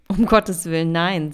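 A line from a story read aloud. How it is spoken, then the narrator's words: Giggling. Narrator (German): kicherte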